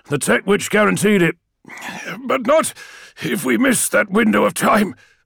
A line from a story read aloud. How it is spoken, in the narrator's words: said Malachurst, an edge of humour in the rasp of his voice